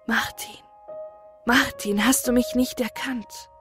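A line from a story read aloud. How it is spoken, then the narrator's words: Whispering in ear. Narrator (German): eine Stimme flüstert ihm ins Ohr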